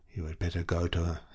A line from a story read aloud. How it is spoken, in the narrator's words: he whispered in a penetrating tone